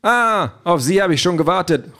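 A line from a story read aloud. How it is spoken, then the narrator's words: Called out. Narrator (German): ruft Toni Parteichef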